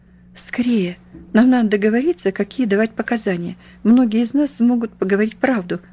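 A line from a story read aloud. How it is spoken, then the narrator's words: Hoarse rasp. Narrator (Russian): прохрипела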